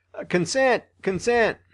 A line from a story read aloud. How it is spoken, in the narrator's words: a number of voices from men who had been at previous meetings of this kind exclaimed